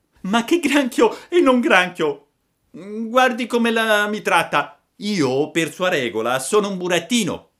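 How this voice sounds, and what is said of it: Resentful, offended tone. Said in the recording (Italian): “disse con un accento risentito”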